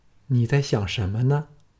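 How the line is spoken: Gentle female voice. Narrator (Chinese): 一个温柔的女声在耳旁响起，说

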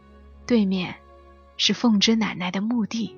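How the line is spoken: Hushed whisper. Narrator (Chinese): 妈妈嘘了一声，对我小声说

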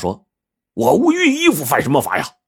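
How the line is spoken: Shouting. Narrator (Chinese): 白胖子就嚷道

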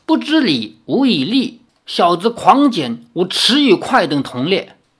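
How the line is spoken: Angrier. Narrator (Chinese): 书中仙更怒，说

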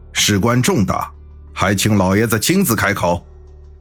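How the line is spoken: Raised voice. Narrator (Chinese): 七爷声音提高了几分

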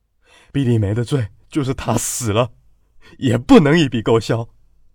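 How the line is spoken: Roaring angrily. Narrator (Chinese): 蒋富贵咆哮道

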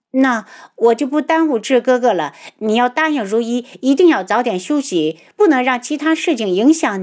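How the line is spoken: Smiling. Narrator (Chinese): 她笑道

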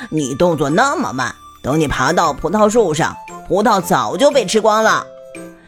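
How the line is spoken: Laughing. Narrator (Chinese): 水管蛇笑着说

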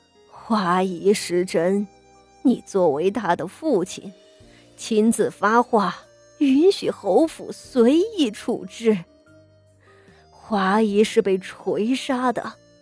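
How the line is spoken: Old woman, slow. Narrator (Chinese): 傅老夫人缓缓的道

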